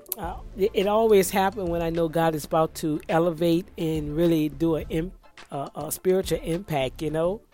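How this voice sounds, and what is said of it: Hoarse, strained voice. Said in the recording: “Oh, my gosh, my throat. ... I'm attacked with my voice. ... bear with my hoarseness,”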